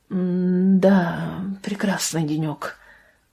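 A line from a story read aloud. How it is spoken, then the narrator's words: Mutter. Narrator (Russian): пробормотала она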